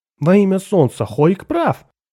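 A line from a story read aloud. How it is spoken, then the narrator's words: Exclamation. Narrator (Russian): воскликнул Джурал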